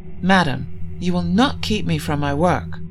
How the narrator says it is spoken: Sir Bors said in a censuring tone

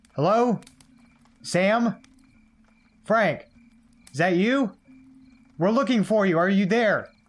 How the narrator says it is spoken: called out

